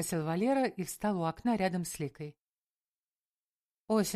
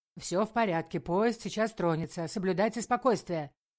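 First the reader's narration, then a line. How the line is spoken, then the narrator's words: Shout. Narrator (Russian): крикнул сотрудник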